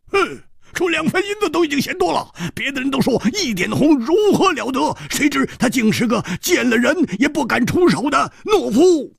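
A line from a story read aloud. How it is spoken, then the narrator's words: Sneering. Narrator (Chinese): 冷笑着说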